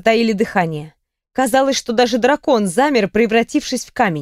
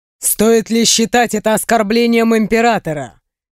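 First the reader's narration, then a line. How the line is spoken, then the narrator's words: Man's wry snort. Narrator (Russian): хмыкнул мужчина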